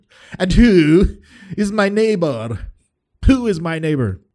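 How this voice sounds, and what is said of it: Put-on posh BBC English accent. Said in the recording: “my BBC accent for prideful people”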